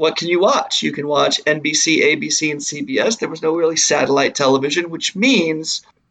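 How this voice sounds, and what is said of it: Usual voice. Nothing is said of it.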